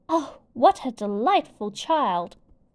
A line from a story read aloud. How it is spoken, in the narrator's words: exclaimed